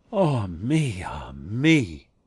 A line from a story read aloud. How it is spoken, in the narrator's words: there was something mournful in his sigh